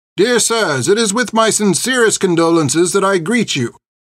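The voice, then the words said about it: Loud, formal reading voice. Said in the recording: “He began reading in a loud voice.”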